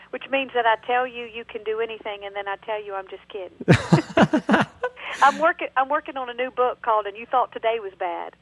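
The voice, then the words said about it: Southern US accent. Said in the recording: “People will find out very quickly from your accent that you are indeed from the South.”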